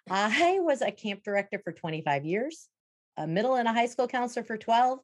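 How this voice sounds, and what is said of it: Wisconsin accent. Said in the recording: “for those of you who are not familiar with a Wisconsin accent, this is it.”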